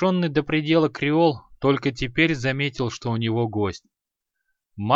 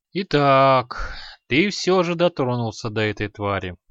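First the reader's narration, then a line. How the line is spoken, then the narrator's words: Gloomy. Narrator (Russian): мрачно прокомментировал Аханит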